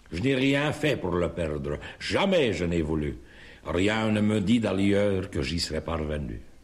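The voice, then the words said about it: Walloon Belgian French accent. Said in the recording (French): “Vous dites que j'ai l'accent, madame. Et vous avez raison. Aucun doute n'est possible, et c'est l'accent wallon.”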